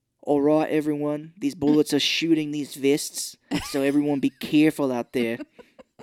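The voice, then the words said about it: Mel Gibson impression, slipping Australian accent. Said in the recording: “Mel Gibson, in the first few Lethal Weapons, his Australian accent, when he had it at the time, was coming through ... Like, Mel, your accent. ... It's slipping.”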